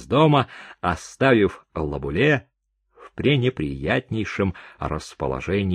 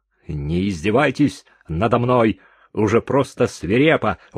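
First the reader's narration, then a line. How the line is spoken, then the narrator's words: Exclamation. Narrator (Russian): воскликнул Дюваль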